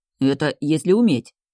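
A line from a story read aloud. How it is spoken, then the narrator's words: Grumbling. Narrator (Russian): проворчал Финистер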